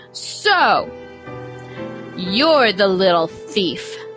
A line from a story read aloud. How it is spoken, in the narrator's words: Mama Jacinta bellowed